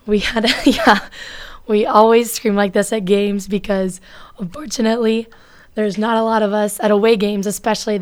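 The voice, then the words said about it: Hoarse, strained voice. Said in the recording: “I don't usually sound like a dying cat ... I screamed my heart out, and so that is why my voice sounds like this”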